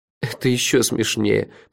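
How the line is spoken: Groaning. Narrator (Russian): простонал я

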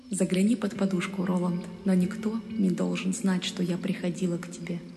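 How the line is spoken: Whispered. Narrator (Russian): прошептали

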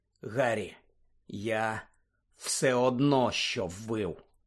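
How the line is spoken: Hoarse rasp. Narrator (Ukrainian): прохрипів він

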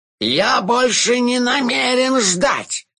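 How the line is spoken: Yelled. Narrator (Russian): завопил мастер загадок

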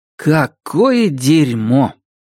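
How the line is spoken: Grumbling. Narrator (Russian): проворчал он

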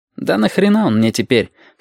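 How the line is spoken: Snorting. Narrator (Russian): хмыкнул Абов

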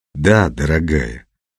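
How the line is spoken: Soft, gentle. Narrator (Russian): мягко сказал Петр

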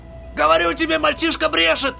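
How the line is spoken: Shouting. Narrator (Russian): закричал Решглотку

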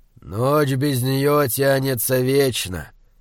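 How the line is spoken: Sighing. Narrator (Russian): вздохнул он

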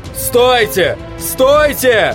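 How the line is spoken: Sudden yell. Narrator (Russian): Хендриксу удалось выйти из оцепенения, и он заорал

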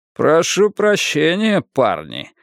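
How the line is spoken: Mocking tone. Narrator (Russian): издевательским тоном заметил Донован

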